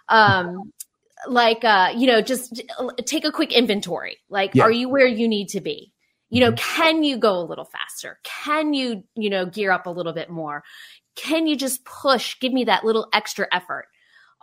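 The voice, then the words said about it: Spin class instructor voice. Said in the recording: “I got to pretend like I'm teaching. ... Got to put on my spinning voice.”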